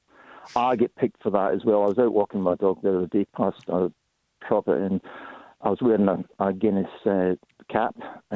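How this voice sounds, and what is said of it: Scottish accent with Australian tinge. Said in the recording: “my accent was Australian, because everybody tells me I'm more Australian than Scottish”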